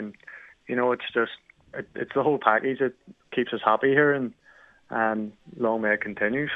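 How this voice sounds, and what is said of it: Northern Irish accent, slight Canadian twang. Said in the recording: “born and raised in Belfast ... You're Irish ... I have sort of a little Canadian twang”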